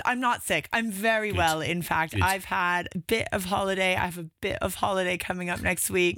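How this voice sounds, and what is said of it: Croaky, hoarse voice. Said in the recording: “It's got that sexy, croaky sound, hasn't it? ... I've lost my voice screaming my lungs out”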